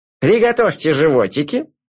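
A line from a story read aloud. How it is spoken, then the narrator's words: Commanding. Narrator (Russian): велел он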